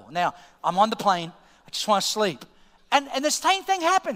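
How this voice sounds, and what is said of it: Australian accent. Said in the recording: “Oh, I'm Australia. The accent is Australia.”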